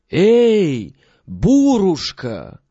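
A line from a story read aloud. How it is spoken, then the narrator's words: Loud call. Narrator (Russian): крикни громким голосом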